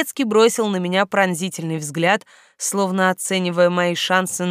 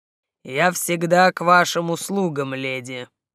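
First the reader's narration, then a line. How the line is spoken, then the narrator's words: Even low voice. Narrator (Russian): ровным, достаточно низким голосом произнес дворецкий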